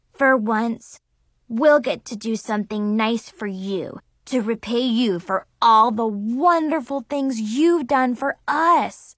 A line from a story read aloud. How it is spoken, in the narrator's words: Zoe exclaimed